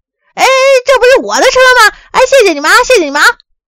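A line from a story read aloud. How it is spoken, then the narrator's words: Surprised joyful cry. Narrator (Chinese): 大昌马上惊喜地叫起来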